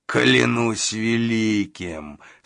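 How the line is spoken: Plain. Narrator (Russian): сказал коготь

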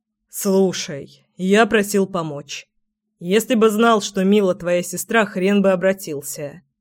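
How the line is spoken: Muffled, low voice. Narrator (Russian): глухо проговорил Семён

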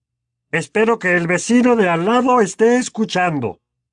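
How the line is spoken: Bellowing man. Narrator (Spanish): bramó tío Vernon

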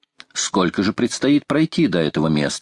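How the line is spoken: Plain. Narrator (Russian): спросил Гленарван

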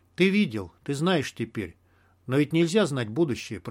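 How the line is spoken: Whisper. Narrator (Russian): прошептал я

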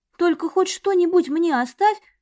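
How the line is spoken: Pleading. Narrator (Russian): взмолилась

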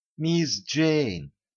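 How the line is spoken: Whispered call. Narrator (Russian): шепотом окликнула Клауди

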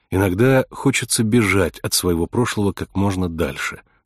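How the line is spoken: Plain. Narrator (Russian): сказала Кейси

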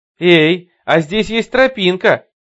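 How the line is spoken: Shouted. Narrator (Russian): крикнула она

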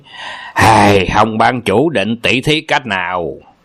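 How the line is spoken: Harsh gritted question. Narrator (Vietnamese): Âu Dương Phong gằn giọng hỏi

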